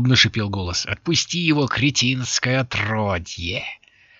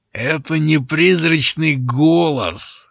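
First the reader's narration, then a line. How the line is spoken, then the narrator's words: Male growl. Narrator (Russian): рыкнул он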